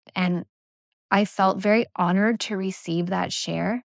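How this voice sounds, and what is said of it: Usual voice. Nothing is said of it.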